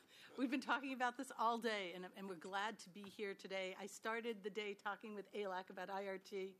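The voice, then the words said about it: Strained, fading voice. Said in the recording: “My voice isn't working ... You can hear I'm losing my voice.”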